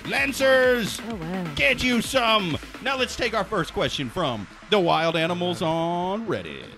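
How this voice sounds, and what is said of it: Announcer voice. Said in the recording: “you have a very great announcer voice.”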